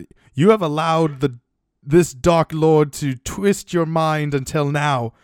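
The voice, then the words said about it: Put-on British accent. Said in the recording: “should I do like the British accent?”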